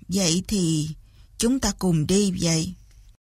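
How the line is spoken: Sighing. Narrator (Vietnamese): Kế Lão thở dài nói

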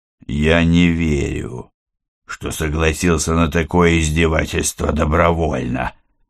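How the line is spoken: Pitiful hoarse rasp. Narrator (Russian): жалостливо прохрипел на это Киря

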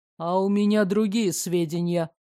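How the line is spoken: Skeptical snort. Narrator (Russian): хмыкнул Карен

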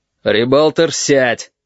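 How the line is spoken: Barked. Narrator (Russian): рявкнул Корнелий

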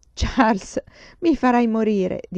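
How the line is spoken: Mother laughing. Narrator (Italian): disse mamma ridendo

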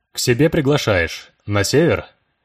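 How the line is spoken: Almost normal voice. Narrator (Russian): Уже почти нормальным голосом сумел спросить Влад

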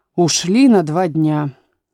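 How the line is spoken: Sigh. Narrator (Russian): вздохнул шляпочник

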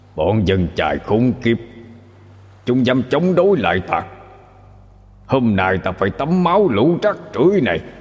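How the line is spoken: Furious roar. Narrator (Vietnamese): Tên thủ lĩnh không thấy thi thể và cọc đâu nữa, liền gầm lên

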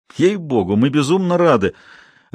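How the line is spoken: Laughing. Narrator (Russian): рассмеялся Вильсон

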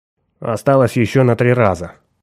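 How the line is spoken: Flat impassive voice. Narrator (Russian): проговорил бесстрастным голосом

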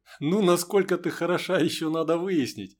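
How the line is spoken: Laughing. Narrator (Russian): засмеялся майор

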